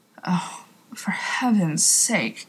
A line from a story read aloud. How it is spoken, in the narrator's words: Crowley muttered